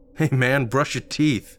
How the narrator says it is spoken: said, laughing again

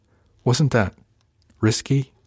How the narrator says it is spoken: she asked

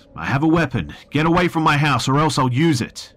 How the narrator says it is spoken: I took a deep breath and yelled out

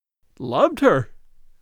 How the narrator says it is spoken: cried Lorison wildly

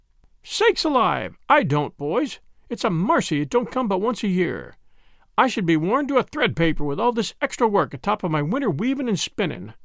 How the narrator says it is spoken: laughed their mother

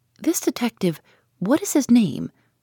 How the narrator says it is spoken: asked eagerly

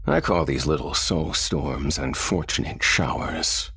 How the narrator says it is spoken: sneered Lucifer

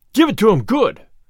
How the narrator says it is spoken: he cried

